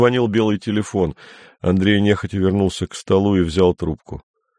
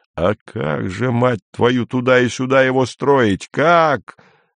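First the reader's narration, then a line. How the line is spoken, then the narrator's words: Yelling. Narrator (Russian): заорал тогда Андрей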